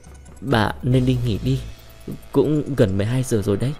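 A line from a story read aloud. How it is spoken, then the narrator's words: Hesitant, stammering. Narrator (Vietnamese): anh ấp úng một chút mới chịu nói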